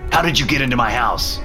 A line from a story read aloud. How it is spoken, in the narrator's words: I yelled